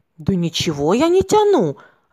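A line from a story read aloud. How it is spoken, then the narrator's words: Offended reply. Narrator (Russian): обиженно ответил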